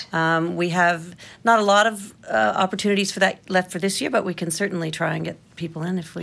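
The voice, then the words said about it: American accent. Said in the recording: “You sound so fancy saying it in your American accent.”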